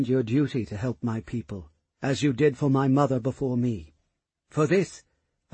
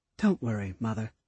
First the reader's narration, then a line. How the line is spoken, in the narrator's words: Leowyn spoke gently to her